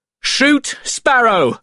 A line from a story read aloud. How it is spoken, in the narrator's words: shouted Norrington